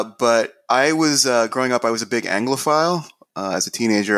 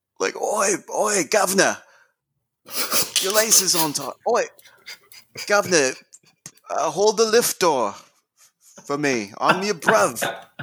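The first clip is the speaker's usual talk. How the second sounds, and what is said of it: Imitated rough Manchester English accent. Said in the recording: “a particular Manchester sort of, you know, roughneck accent ... distinct from, you know, the more traditional English accents”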